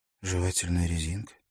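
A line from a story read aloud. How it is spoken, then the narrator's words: Thoughtful question. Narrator (Russian): задумчиво переспросила Лаура Миттет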